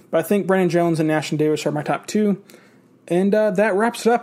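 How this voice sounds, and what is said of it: Unwell-sounding voice with stammering. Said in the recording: “I'm a little bit under the weather, as you can probably tell by my voice and the stammering”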